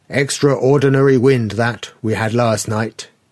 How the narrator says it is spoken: he said

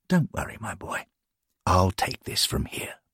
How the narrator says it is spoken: good old Charlie simply whispered

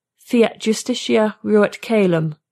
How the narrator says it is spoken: Nonentity 667 said

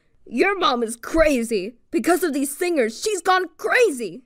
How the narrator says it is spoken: he said loudly

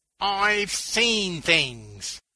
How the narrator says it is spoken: he finally shouted

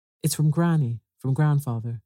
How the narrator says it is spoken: she said

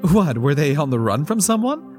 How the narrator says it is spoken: Paula laughed

